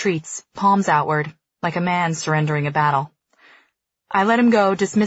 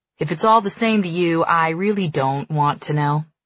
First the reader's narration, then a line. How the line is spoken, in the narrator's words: he says